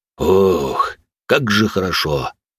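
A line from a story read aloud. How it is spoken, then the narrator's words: Pleased deep bass. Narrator (Russian): довольным голосом пробасил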